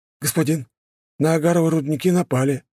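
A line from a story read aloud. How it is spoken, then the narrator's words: Hesitant frightened servant. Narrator (Russian): неуверенно проговорил перепуганный слуга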